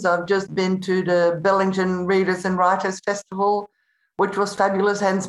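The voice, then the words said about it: Slightly crackly, strained voice. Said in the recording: “my voice is a little crackly. I did way too much talking.”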